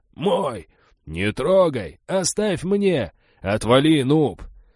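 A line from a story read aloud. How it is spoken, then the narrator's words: Shouting, squabbling crowd. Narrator (Russian): Новички кричали и переругивались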